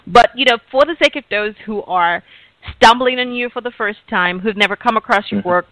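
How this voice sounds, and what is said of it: African accent. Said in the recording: “I'm African, so I have an accent.”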